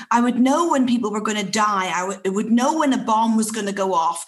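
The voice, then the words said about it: Northern Irish accent. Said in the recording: “I raised in Northern Ireland, as you can hear from the accent”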